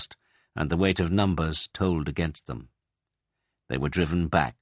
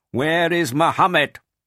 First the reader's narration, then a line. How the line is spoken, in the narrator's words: he shouted